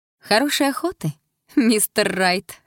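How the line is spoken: Laughing, ringing voice. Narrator (Russian): хохочу звонким голосом, добавляя

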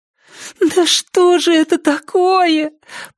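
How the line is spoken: Moaning. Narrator (Russian): простонала Триша

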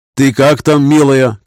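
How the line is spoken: Shouting. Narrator (Russian): крикнул он

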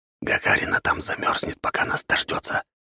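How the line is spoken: Whispered. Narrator (Russian): прошептал Собакин

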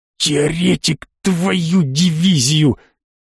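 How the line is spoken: Angry hiss in ear. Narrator (Russian): На самое ухо злобно зашипел Гудрон

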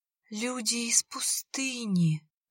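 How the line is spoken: Breathed out. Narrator (Russian): выдохнула капелька

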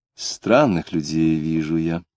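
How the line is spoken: Sighing. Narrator (Russian): сказала она, вздохнув

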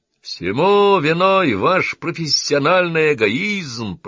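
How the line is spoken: Roar. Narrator (Russian): проревел Саймон

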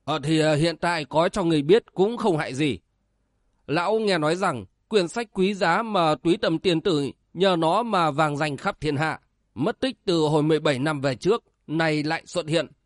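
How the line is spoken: Smiling old priest. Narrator (Vietnamese): Lão đạo sĩ nghe nói mỉm cười đáp

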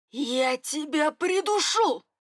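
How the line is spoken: Growl. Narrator (Russian): Прорычали дальше

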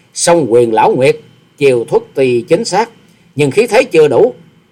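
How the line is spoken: Sneering, unmoved. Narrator (Vietnamese): Hoa Sĩ Kiệt mặt không đổi sắc, cười khẩy

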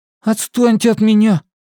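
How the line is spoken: Nearly babbling. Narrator (Russian): Он еще не лепетал, но дело к этому шло

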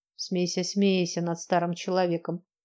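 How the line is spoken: Good-natured old man grumbling. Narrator (Russian): Беззлобно проворчал дед

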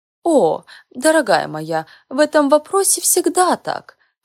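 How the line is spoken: Laughing. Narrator (Russian): посмеялась Элеонора

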